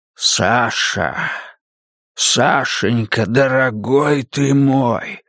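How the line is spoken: Hoarse voice. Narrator (Russian): хрипло говорит падла

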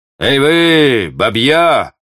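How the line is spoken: Shouting. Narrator (Russian): крикнул Клопен

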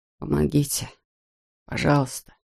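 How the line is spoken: Desperate whisper. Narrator (Russian): В отчаянии Брейс прошептал

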